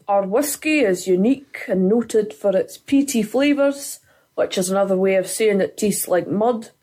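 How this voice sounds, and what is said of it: Scottish accent. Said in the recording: “it's much funnier with a Scottish accent”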